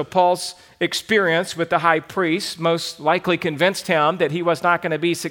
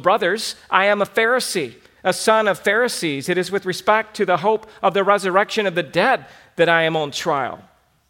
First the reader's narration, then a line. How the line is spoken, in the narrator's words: Paul cried out in the council